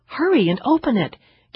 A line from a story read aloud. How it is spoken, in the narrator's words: Karen urged excitedly